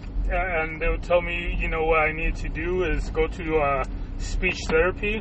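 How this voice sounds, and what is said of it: Mexican accent. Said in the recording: “I think I'm just Mexican... my accent, dialect, however you want to call it”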